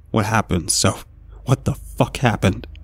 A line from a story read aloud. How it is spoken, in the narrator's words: I picked up the black microphone and brought it shakily towards my lips